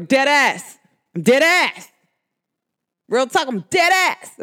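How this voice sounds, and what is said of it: New York / New Jersey accent. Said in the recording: “in my New York accent, New Jersey / New York”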